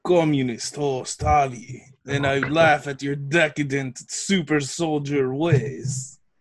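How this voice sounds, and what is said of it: Put-on Russian accent, not convincing. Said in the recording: “my Russian accent just becomes uh, what's her name from Glow? Alison yeah. Brie... pretty bad”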